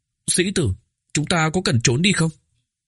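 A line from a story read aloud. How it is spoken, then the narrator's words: Trembling voice, mouth full. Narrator (Vietnamese): Oánh Oánh run rẩy nhét một miếng bánh thơm vào miệng, run giọng nói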